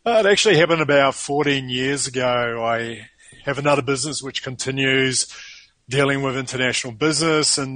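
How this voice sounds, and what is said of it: New Zealand accent. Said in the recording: “it is definitely not a Latino accent here. It's actually a New Zealand accent.”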